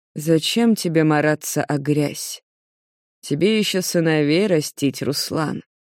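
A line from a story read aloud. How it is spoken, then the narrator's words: Quiet. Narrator (Russian): говорит он негромко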